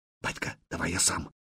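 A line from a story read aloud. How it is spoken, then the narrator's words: Whispered offer. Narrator (Russian): предложил он шепотом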